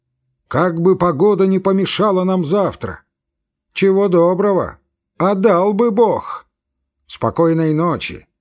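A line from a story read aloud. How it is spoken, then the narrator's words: Shout. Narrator (Russian): фон Корен крикнул ему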